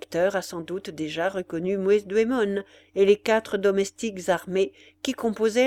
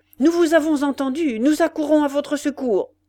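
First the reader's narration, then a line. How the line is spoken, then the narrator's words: Shouted. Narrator (French): cria-t-il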